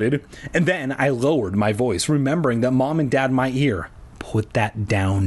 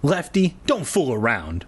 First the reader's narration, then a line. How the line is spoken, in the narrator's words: I snapped, feeling a stab of dread in the pit of my stomach